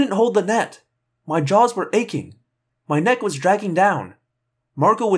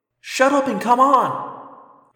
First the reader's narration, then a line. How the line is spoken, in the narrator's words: I cried